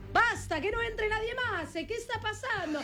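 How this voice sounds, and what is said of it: Shouting in put-on Italian accent. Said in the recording (Spanish): “Todo lo decía con esa tonada. Hablas italiano perfecto.”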